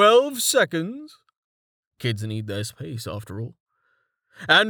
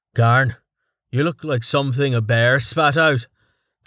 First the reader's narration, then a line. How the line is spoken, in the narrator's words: Quis grunted